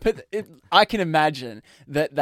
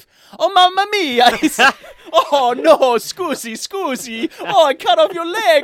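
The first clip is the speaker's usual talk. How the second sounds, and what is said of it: Put-on Italian accent. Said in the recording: “Italian or Greek. We'll settle for any of that sort of area accent.”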